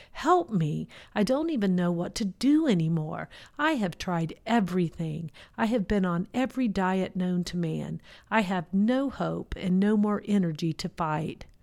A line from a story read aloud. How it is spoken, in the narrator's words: cried out to God, the Creator, the universe